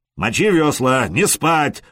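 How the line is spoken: Roaring. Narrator (Russian): взревел Простен

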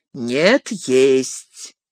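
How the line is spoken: Calm. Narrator (Russian): спокойно ответил он

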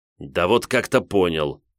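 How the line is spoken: Snapping retort. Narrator (Russian): огрызнулся Гудвин

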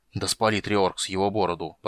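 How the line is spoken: Muttered. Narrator (Russian): пробормотал он

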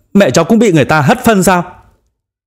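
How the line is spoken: Furious shout. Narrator (Vietnamese): Chu Triều Dương quay người hét lớn, hai mắt như bốc lửa

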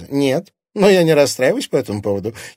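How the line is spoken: Giggle. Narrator (Russian): хихикнула Оксана

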